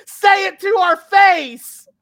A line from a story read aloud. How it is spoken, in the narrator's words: the Bella Twins are from ringside yelling